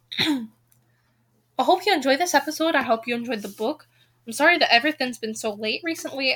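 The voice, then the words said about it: Scottish accent. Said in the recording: “dealing with my Scottish accent”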